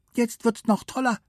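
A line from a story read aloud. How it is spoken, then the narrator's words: Squeaky voice. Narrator (German): piepste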